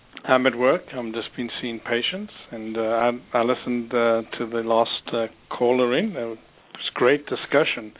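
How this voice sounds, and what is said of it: South African accent. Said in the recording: “the South African accent is actually very lovely ... has a very nice accent”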